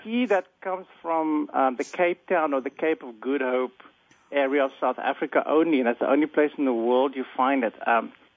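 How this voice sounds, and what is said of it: South African accent. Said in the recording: “I'm actually South African, and most of you probably have, I'm sure many of your audience have already figured that out from my accent.”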